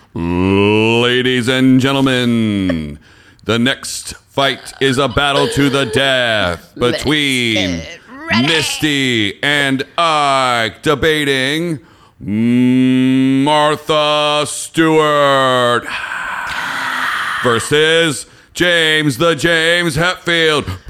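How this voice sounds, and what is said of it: Announcer voice. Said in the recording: “do the announcer voice”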